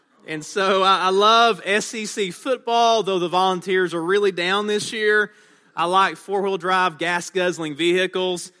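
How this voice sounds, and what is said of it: East Tennessee Southern accent. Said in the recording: “as you can tell by the way I talk, I'm not from around these parts... Your accent is very strange... this accent was forged in the mountains of East Tennessee, and I have to confess that I am a bona fide redneck”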